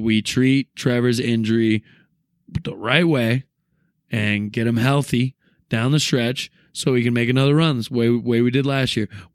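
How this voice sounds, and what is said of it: Hoarse, raspy voice. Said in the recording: “My voice is still hoarse. ... that sexy ... rasp ... I think I sound like shit.”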